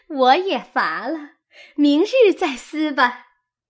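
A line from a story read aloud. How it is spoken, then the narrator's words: Laughing. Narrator (Chinese): 晴雯笑着 说道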